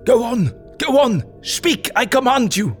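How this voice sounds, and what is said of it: Agonized, desperate pleading voice. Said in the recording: “in an agonized voice”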